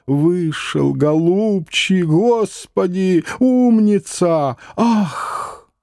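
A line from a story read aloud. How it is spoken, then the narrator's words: Crowd roar, tearful thin moan. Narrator (Russian): Взревела вся площадь, а лысоватый слезливо и тонко застонал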